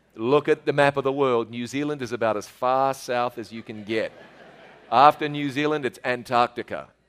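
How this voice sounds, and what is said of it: New Zealand accent. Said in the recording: “I know you have difficulty with my accent every now and then. I have a southern accent. ... So I live in New Zealand. ... So this is a southern accent.”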